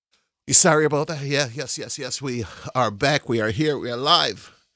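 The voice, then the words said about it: Out of breath, breathless speech. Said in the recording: “You can tell I'm out of breath, right?”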